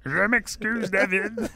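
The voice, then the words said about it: Kermit the Frog puppet voice. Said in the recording (French): “avec sa voix de Kermit”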